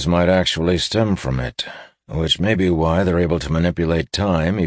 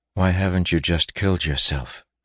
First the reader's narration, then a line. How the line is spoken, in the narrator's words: He asked quietly